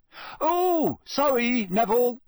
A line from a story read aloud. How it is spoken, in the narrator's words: Fred shouted over all the laughter